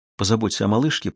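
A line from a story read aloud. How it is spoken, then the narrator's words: Whispered. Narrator (Russian): прошептала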